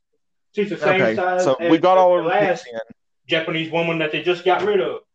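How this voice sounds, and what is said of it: Imitates another person's voice. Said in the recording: “you're sounding a lot like him right now ... my best Jeremy impression”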